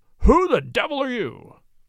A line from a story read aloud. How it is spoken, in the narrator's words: he thundered